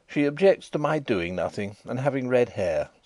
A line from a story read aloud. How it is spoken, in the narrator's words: said I, in an injured tone